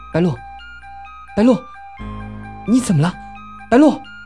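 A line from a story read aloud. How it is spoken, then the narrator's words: Crying out. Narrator (Chinese): 小蝶忍不住叫了声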